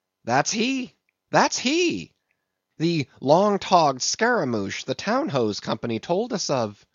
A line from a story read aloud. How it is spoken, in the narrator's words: Stubb had exclaimed